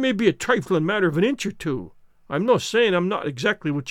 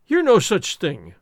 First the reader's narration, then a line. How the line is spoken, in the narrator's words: cried Alan with a start